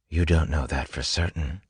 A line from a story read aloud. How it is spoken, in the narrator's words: Vin said softly, voice complimented by the quiet rain